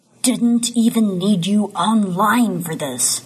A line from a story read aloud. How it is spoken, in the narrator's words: he growls